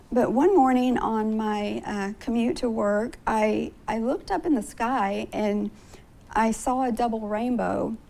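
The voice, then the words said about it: Hoarse voice. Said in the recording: “I'm really hoarse.”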